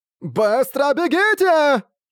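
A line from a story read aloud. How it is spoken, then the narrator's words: Shrieking. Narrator (Russian): завизжала Лун Цзяонань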